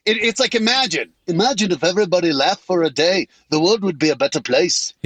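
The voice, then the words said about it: Poor imitation of another person's voice. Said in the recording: “my shitty John Lennon impression ... it's about as good as my singing”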